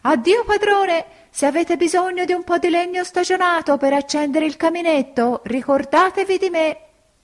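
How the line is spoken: Laughing, shouting louder. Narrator (Italian): rideva … urlava più forte

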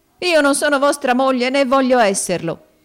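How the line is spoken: Desperate, proud, sudden exclamation. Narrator (Italian): esclamò la povera creatura col subitaneo e fiero coraggio della disperazione

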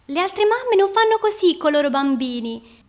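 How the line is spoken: Shouting. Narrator (Italian): gridava

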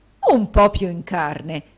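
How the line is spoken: Horrified exclamation. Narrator (Italian): esclamò il direttore con orrore

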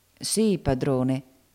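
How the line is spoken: Humble voice. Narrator (Italian): riprese Dodo con voce umile

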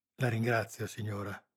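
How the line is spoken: Murmuring. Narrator (Italian): mormorò Teresa

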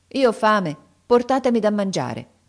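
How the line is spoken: Firm tone. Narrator (Italian): Aladino rispose con tono fermo

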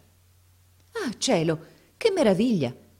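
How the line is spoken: Exclamation. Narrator (Italian): esclamò allora

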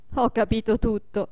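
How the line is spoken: Laughing. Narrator (Italian): disse Adolfo ridendo

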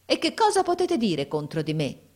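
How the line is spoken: Man's exclamation. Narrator (Italian): esclamò mio fratello

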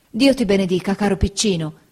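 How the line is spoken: Exclaimed. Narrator (Italian): esclamò Peggoty

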